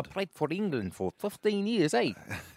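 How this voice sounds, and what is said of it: Put-on New Zealand accent. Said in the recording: “No, that's a New Zealand accent.”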